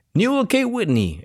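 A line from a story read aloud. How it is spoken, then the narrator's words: Exclaimed. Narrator (Spanish): exclamó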